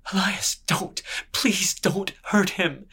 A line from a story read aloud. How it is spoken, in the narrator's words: came the fiddler's voice behind him, choked with worry